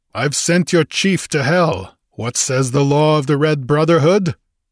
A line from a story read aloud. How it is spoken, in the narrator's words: he roared